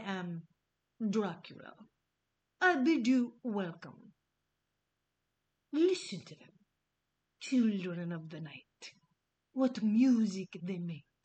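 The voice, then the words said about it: Put-on Dracula-style vampire accent. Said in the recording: “Just go with me on my shitty accent. I could have been really melodramatic. I held back”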